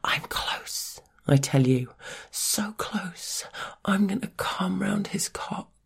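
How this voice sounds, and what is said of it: Soft intimate whisper. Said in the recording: “I let out a little whisper that only you can hear”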